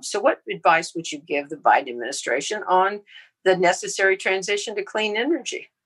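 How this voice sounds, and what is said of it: Texas accent. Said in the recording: “I'm sitting here in Houston, Texas, as you can probably tell by my accent”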